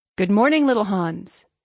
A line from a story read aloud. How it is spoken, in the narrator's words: said the miller